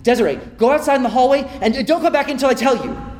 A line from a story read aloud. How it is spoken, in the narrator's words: Dad yells